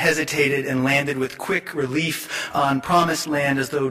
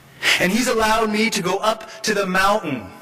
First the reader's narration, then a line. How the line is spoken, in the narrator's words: King cried, building intensity